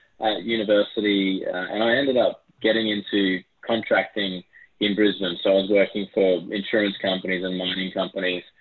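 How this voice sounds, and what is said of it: Australian accent. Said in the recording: “You can probably tell from my Aussie accent”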